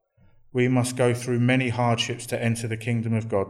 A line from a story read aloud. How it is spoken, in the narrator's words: they said